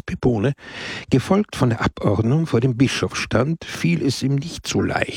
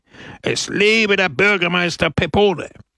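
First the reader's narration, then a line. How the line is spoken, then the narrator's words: Crowd roaring. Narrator (German): brüllte die Menge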